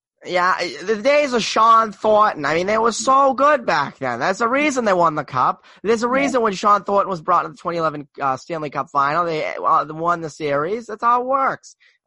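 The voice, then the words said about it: Poor put-on Boston accent. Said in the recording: “My Boston accent sucks.”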